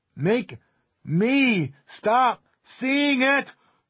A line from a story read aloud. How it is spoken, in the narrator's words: Carol screamed